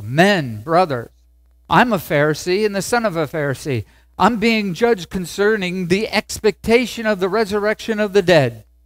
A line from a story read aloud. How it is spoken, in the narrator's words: cried out in the council